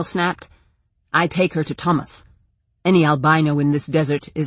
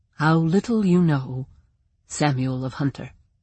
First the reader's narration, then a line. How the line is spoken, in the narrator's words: Talia said gently